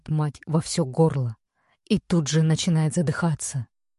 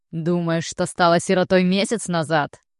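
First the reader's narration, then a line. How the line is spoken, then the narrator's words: Gloating, venomous laughing father. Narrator (Russian): злорадствует отец, ядовито смеясь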